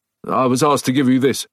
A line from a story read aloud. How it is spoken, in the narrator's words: he said